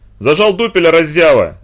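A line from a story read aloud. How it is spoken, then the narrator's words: Angry shout. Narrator (Russian): закричал моряк в сердцах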